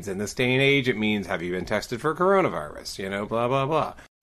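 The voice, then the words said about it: Smooth jazz DJ voice. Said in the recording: “I am going to be talking in as smooth a jazz DJ voice as I can for this podcast, and that is because I hurt my throat”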